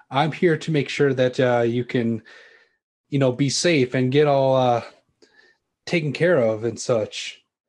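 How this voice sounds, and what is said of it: Poor attempt at American accent. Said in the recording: “he's trying to do his best American accent, but he's kind of failing at it.”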